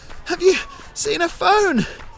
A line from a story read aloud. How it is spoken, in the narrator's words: I shouted, my words lost in the slipstream